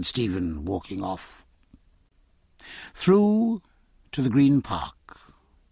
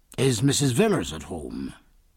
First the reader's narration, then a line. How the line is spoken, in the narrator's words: he asked in a harsh, formal tone that betrayed the most eager expectation